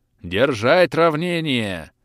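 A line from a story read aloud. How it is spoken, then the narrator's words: Booming battle shout. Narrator (Russian): Зычным голосом прокричал Анри Дюбьен перед самым столкновением с вражеской конницей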